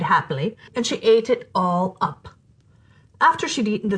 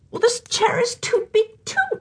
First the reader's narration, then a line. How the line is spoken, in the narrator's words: she whined